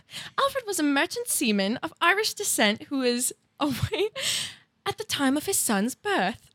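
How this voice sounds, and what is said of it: Put-on Liverpool British accent. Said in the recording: “you have to do all of this in a British accent... A Liverpool accent... Okay, that was good.”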